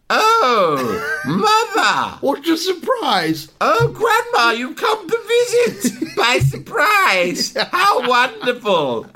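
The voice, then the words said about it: Drunk voice straining to sound sober. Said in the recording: “doing your not pissed voice, ... which you're very concerned and aware ... probably makes you sound extra pissed”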